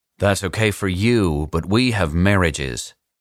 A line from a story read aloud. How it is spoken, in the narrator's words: Senator 1 said sternly